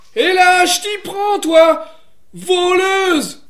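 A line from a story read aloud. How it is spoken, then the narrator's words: Accusing shout. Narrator (French): lui cria-t-il, car il pensait qu'elle était venue picorer le grain des poules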